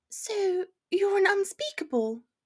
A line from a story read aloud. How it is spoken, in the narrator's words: she says brightly